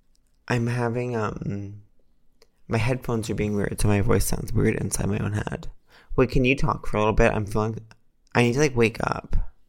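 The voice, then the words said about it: Sleepy, soft ASMR-like voice. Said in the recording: “your sleepy voice is so sweet ... You're really like ASMR-y right now.”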